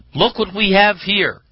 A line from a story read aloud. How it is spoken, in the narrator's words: she exclaimed